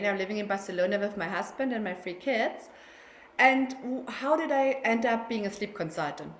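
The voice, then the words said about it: German accent. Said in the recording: “as you can hear from my accent, I'm German”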